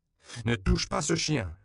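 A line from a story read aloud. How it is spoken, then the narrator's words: Shouted in Spanish. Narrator (French): lui cria Pépé en espagnol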